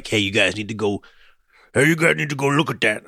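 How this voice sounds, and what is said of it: Poor impression of Bruce Barnum. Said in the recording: “terrible Bruce Barnum impression”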